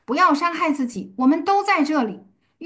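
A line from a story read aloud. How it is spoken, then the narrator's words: Loud calling. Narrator (Chinese): 保罗大声呼叫说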